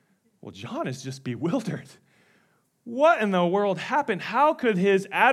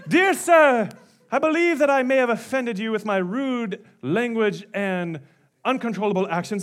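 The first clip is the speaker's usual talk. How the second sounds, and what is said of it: Put-on British accent. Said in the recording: “he has a British accent”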